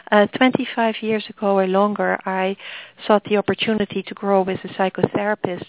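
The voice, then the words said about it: Dutch accent. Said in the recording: “The accent is Dutch”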